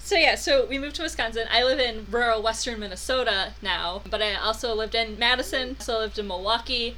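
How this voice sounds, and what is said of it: Upper Midwest accent, fast talking. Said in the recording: “input about my accent ... I've been told that I talk really fast. They talk very slowly in the South compared to how we talk up North.”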